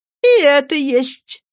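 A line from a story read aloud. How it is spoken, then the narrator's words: Laughing. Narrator (Russian): смеясь ответила Агнеса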